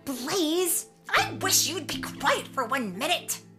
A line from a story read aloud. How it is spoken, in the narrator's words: yelled Tink